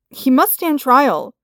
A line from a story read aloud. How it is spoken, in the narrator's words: cried Skywalker